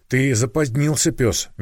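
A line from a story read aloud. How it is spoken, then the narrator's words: Displeased, through teeth, she-wolf. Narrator (Russian): недовольно сквозь зубы процедила волчица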